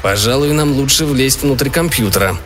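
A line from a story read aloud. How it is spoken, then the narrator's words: Plain. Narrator (Russian): сказал Джо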